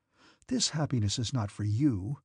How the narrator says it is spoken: some inner voice whispered to him

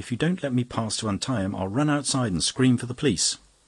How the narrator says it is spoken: cried the young woman

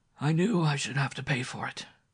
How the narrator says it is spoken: he murmured

